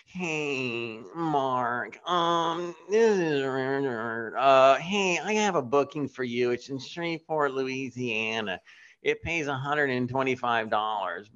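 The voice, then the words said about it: Impression of a comedy booker. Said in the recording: “Yes, I can do an impression. ... There used to be this gentleman, he would book acts”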